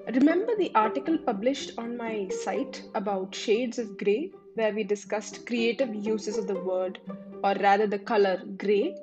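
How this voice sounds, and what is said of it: Unusual, off-sounding voice. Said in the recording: “this weird voice of mine today”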